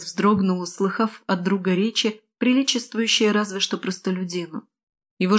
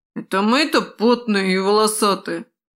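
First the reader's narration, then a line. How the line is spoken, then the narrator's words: Offended question. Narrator (Russian): обиженно поинтересовался Веснушка у Кертиса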